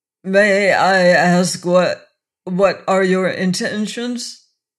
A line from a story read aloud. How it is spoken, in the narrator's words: he quavered